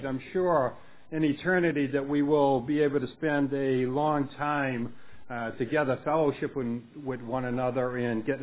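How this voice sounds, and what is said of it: Heavy Boston accent. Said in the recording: “I will be speaking not in Hungarian, but in Bostonian. ... My own children tell me that I have a bad Bostonian accent, or a heavy one.”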